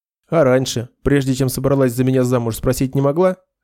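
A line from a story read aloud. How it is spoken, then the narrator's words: Wry snort. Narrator (Russian): хмыкнул Нед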